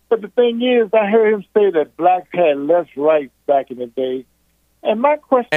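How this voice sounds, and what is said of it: Southern US accent. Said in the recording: “I'm from down south, bro. I'm from Virginia originally. ... I got that southern accent.”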